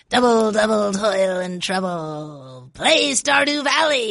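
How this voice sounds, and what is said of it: Put-on witch character voice. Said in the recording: “in your best witch accent ... This is not a witch. ... not all witches sound the same”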